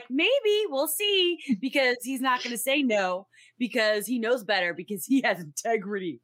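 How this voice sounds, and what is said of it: Imitates another person's voice. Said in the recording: “your Patrick Stewart impression. That was just beautiful. That was so good.”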